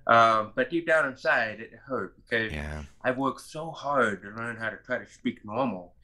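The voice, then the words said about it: Hearing loss accent. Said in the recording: “your hearing loss accent ... Are you from England, or are you from the Australia or Canada?”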